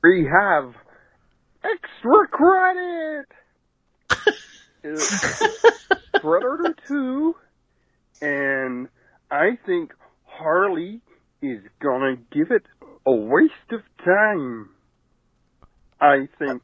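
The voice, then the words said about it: Goofy impression voice. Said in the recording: “He's Goofy. No. He's Goofy. He's totally ... Goofy.”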